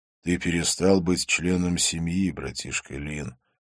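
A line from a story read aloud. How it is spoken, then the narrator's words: Quiet. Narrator (Russian): сказал он тихо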